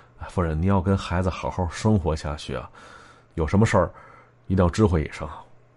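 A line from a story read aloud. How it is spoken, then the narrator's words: Mumbling. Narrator (Chinese): 我嘟囔着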